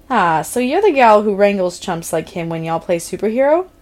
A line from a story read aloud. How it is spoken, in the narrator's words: Steph laughed brightly, the kind of laugh that sounded like it came from Mean Girls